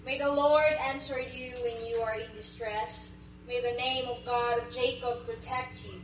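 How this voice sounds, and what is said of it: Filipino-accented English. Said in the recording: “from Digo City, Philippines... their accent is a little bit different than ours”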